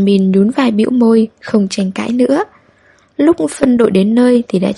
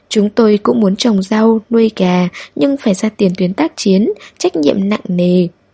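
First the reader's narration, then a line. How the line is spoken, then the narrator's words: Sarcastic. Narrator (Vietnamese): Benjamin mỉa mai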